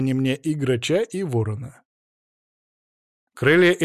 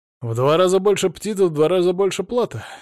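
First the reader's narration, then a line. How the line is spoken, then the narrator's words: Cheerful smirking chuckle. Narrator (Russian): весело усмехнулся я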